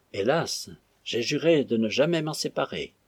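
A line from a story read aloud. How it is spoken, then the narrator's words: Sighing. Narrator (French): soupira Bassanio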